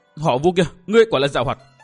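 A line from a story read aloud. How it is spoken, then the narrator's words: Indignant outburst. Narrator (Vietnamese): Giang Bình căm phẫn thốt lên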